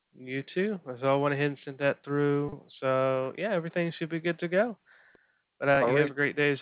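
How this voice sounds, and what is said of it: Southern US Alabama accent. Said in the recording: “I'm from Alabama, so if you hear that accent, that's why. ... Your accent is very similar to down east Maine ... a slight, almost southern-sounding accent”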